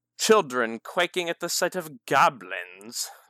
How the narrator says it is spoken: the young man sneered

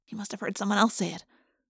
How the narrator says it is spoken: I whispered to Jake

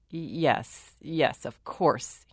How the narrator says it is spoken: muttered

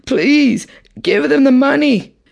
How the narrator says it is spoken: the two bleeding wives and mother pleaded

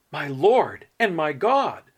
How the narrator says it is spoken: he exclaimed

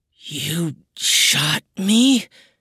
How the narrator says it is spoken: its voice rasped

